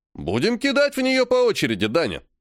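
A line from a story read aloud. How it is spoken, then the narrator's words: Cheerful. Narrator (Russian): весело говорит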